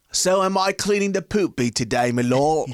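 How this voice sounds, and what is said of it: Bad put-on British accent. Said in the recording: “your British accent was rubbish”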